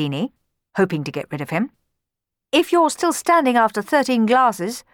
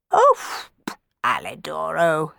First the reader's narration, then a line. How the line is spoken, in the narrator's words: scoffed Dandini, who had secretly fallen in love with Cenerentola himself